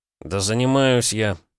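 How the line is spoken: Grumbling mutter. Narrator (Russian): пробурчал Петя

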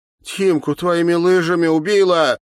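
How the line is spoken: Angry tearful shout. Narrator (Russian): зло плача выкрикнула Катя

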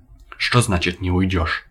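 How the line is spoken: Boss growling. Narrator (Russian): прорычал шеф

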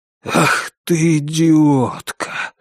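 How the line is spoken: Breathless exclamation. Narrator (Russian): выдохнул Норман

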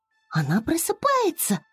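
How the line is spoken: Joyful. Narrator (Russian): радостно сказала Флора, увидев, что незнакомка приоткрыла глаза

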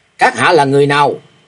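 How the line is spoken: Frantic shouted question. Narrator (Vietnamese): Thạch Mộng điên cuồng quát hỏi

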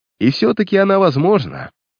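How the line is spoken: Cheerful. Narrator (Russian): весело проговорил Картер

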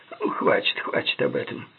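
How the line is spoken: Grumbling mutter. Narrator (Russian): буркнул Горман

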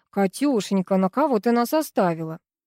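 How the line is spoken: Big man's mocking tone. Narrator (Russian): Продолжил насмешливо здоровяк

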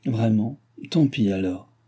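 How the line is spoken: Pained resignation. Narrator (French): reprit-il d'un ton de douloureuse résignation

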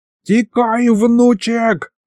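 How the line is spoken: Old man yelling. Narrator (Russian): заорал дед

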